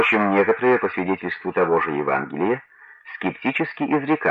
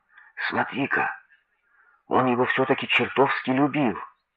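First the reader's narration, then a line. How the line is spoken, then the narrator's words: Whispering. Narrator (Russian): Евреи же, принявшие его слезы за чистую монету, говорили шепотком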